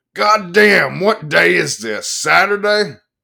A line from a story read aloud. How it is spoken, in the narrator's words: A bony, middle-aged hoodlum wearing a Harley Davidson t-shirt boomed up the bar and yelled